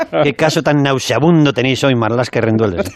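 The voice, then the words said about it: Imitates another person's voice. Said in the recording (Spanish): “podría intentar poner la voz de él ... es que le estoy oyendo”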